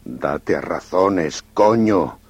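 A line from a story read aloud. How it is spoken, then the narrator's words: Muttering curses stubbornly. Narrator (Spanish): el ratero mascullaba palabrotas y murmuraba obcecadamente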